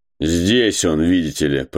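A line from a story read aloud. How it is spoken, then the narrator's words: Sarcastic voice. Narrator (Russian): произнес голос язвительно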